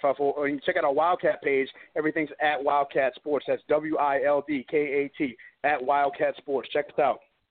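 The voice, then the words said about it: New Orleans accent sounding northern. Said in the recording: “you can hear it in his voice ... that accent like he has. That sounds like a northern accent, but he's from New Orleans”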